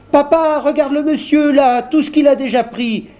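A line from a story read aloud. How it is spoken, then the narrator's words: Exclaimed. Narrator (French): s'écria Michelino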